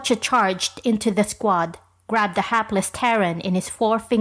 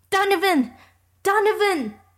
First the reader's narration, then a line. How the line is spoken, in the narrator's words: shouted Sam Allman